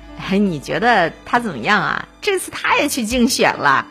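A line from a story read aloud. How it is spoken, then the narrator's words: Laughing. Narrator (Chinese): 其中一个人就笑着说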